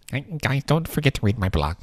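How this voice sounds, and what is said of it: Nerdy character voice. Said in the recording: “it's our nerd voice, apparently.”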